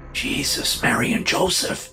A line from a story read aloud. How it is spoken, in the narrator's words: the man whispered